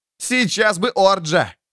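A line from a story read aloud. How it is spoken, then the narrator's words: Shout. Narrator (Russian): крикнул Эрвин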